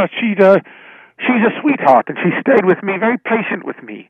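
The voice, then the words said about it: Put-on Irish accent. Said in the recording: “the Irish accent, clearly works for you”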